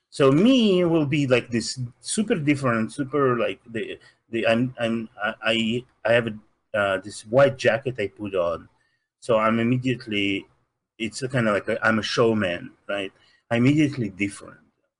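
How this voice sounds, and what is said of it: Russian accent. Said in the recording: “Then I have this accent immediately. I cannot hide it. ... I'm from Russia”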